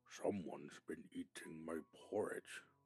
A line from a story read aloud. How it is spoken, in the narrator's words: growled the Papa Bear